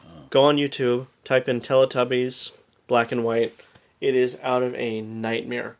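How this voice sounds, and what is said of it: Usual voice. Nothing is said of it.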